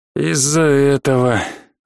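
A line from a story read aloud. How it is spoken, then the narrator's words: Heavy sigh. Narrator (Russian): тяжело вздохнул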